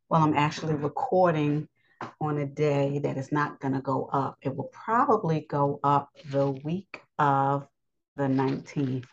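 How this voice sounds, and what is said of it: Strained voice cutting in and out. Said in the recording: “my voice is going in and out today”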